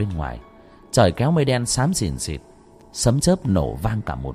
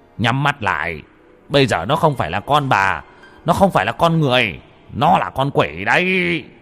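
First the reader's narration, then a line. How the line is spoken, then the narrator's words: Shouted. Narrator (Vietnamese): Ông Mo quát lên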